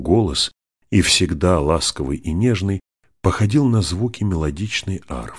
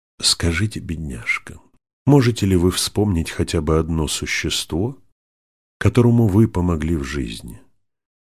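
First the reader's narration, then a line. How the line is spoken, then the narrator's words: Plain. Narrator (Russian): спросил сэр Уоми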